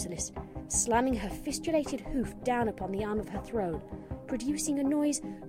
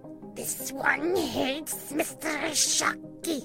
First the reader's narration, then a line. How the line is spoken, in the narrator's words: snarled, baring her fangs